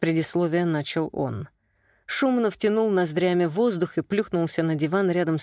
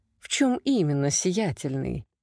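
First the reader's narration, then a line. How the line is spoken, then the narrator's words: Soft smiling woman. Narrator (Russian): Мягко улыбнулась женщина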